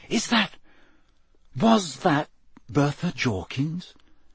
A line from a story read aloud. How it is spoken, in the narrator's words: Harry whispered